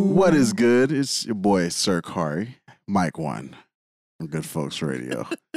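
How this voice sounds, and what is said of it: Smooth radio broadcaster voice. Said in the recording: “I was trying to hit him with like the radio voice. ... Like smooth jazz. ... Real broadcasting shit.”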